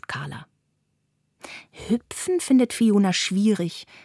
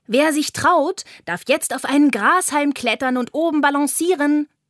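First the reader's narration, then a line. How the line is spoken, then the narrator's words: Calling out. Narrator (German): ruft Carla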